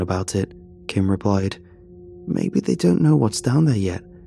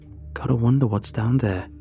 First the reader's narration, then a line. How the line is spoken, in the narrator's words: Kim muttered